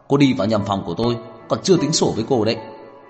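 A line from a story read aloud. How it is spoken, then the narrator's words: Angry. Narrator (Vietnamese): Tưởng Thiên Lỗi tức giận nói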